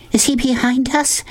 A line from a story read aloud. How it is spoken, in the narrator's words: Sistine asked breathlessly